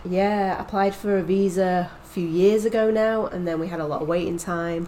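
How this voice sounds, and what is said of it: British accent. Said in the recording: “as anyone listening can probably tell by my accent, I'm certainly not American. ... I've come from the UK”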